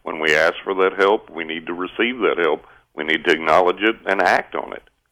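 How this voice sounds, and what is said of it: West Texas accent. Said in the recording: “you sound like my excellent Uncle Pal from Texas ... I am from West Texas”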